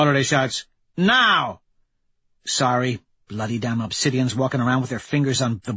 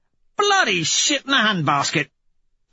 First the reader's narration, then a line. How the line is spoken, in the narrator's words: Severo yelps